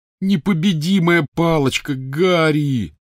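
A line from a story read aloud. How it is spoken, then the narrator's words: Groaning. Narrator (Russian): застонал Рон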